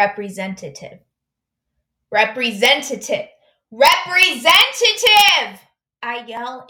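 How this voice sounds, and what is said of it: Usual voice. Nothing is said of it.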